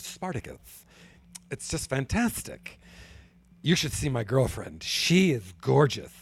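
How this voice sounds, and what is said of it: Imitates another person's voice. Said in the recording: “my Cory Booker impression”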